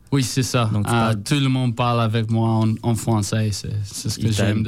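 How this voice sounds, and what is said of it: Heavy foreign accent in French. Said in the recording (French): “personne ne me comprend à cause de mon gros accent.”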